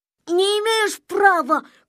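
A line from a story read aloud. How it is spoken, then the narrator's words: Shouting. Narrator (Russian): кричал Незнайка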